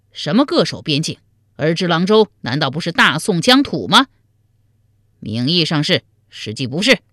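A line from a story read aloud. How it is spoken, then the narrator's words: Angry rebuke. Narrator (Chinese): 田崇进怒斥道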